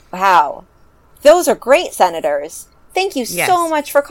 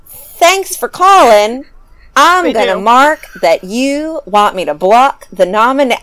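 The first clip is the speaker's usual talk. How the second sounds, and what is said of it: Exaggerated Southern accent. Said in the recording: “This is going to be a very offensive Southern accent.”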